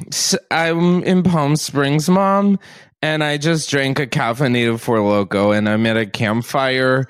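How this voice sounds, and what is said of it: Drunk person impression. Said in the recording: “do your best impression of a drunk person stumbling around a bonfire ... do your best impression of one of us.”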